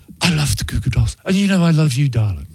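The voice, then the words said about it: Posh English accent impression. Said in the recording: “It's that posh English accent.”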